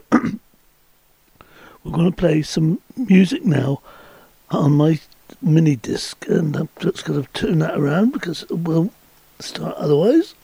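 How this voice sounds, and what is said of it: Slightly hoarse, sore-throated voice. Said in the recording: “I've got a bit of a sore throat”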